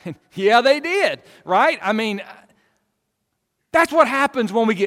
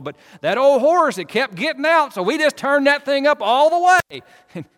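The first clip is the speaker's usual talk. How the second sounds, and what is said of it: Put-on northeast Arkansas accent. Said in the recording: “I'm going to do my best northeast Arkansas impersonation here, right? Sorry if you're from northeast Arkansas”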